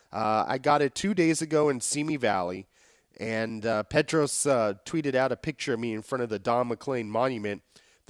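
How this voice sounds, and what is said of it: Deeper, sickly sounding voice. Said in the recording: “my voice sounds somewhat deeper and a little bit more sickly than it usually does”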